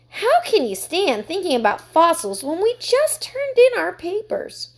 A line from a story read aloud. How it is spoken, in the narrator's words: Heidi exclaimed